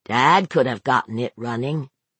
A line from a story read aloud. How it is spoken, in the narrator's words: Brett said flatly